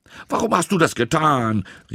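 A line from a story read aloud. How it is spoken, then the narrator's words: Angry shout. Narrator (German): rief Tom ärgerlich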